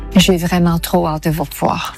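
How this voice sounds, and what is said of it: Convincing put-on Belgian accent. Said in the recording (French): “Fait très très bien l'accent belge”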